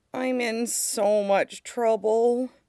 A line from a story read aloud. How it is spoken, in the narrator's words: Aang groaned